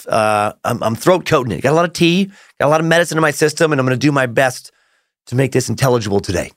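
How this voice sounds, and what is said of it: Voice off from a cold. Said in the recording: “Yes, I have a cold. My voice sounds off.”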